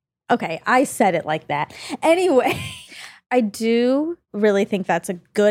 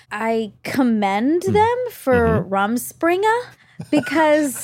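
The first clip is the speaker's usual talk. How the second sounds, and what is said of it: Speaks in a brief odd accent. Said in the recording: “I like your accent. Whatever that was.”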